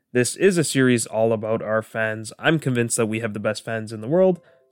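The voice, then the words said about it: Slightly off, sick-sounding voice. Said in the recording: “my voice sounds a little bit funny. I've been under the weather for a few days”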